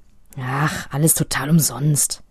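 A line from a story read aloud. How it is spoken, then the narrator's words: Grumbling mutter. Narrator (German): brummelt nur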